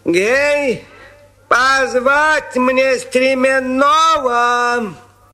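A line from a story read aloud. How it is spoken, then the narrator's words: Shouted. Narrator (Russian): Царь посыльным закричал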